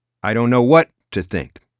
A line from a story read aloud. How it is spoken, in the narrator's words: Howie had replied